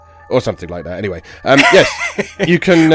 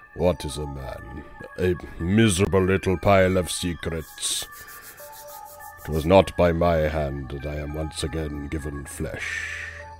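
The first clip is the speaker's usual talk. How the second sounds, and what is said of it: Very deep vampire impression voice. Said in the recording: “I am ill ... make my voice drop about 2 octaves and do a very good vampire impression.”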